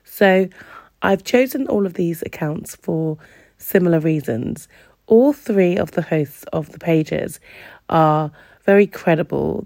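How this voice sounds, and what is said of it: Slightly congested voice. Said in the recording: “I have a little bit of a cold today”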